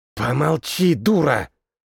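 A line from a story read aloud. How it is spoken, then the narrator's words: Mage hissing. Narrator (Russian): Зашипел на нее еще один маг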